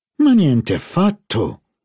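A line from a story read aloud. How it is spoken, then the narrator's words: Exclaimed. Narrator (Italian): esclamò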